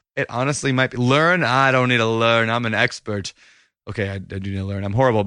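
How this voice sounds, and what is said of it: Hoarse, fading voice. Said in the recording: “losing my voice. Do you hear that? It's like gone.”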